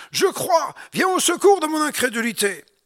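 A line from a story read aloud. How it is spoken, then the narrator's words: Crying out. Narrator (French): le Père de l'enfant s'écria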